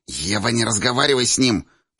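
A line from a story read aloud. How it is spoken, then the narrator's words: Hiss. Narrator (Russian): прошипела Даша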